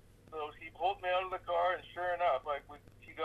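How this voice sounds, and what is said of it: Usual voice. Nothing is said of it.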